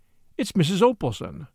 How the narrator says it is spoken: I exclaimed

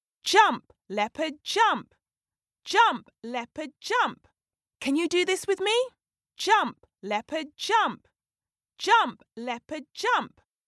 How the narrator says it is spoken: they began to shout

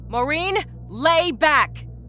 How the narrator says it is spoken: Rita shouted

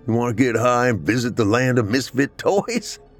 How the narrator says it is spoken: He laughed with pride at his own joke

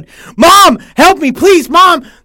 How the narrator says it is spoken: screamed as loud as I could

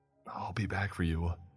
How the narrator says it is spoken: I mutter

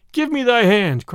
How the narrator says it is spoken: cried he

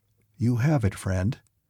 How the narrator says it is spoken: he said gently

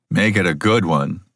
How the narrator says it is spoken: said Keelguard

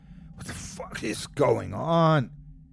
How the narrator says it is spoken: he choked

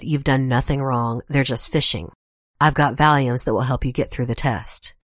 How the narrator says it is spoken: Fritz calmly said

